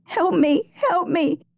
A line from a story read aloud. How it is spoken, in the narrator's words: the girl wailed